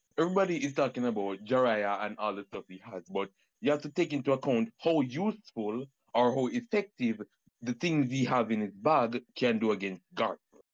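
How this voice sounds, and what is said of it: Jamaican accent. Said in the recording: “I peep the accent... I'm from Jamaica.”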